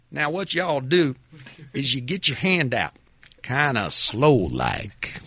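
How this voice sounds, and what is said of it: Georgia hunter voice. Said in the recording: “the Dahlonega, Georgia hunter voice ... Trying to sound like me over there”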